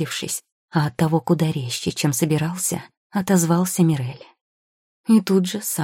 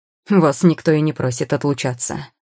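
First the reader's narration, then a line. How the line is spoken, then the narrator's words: Contemptuous snort. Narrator (Russian): фыркнул курьер с явным презрением к умственным способностям собеседника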